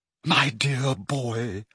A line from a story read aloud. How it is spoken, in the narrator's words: she said in a very carrying whisper